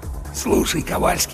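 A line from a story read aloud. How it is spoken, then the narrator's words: Conspiratorial whisper into ear. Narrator (Russian): заговорщически прошептал в самое ухо третьего сержанта Чарли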